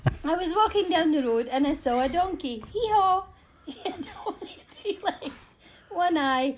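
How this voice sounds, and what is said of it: Reads aloud with an accent. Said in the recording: “the accent makes it so much better.”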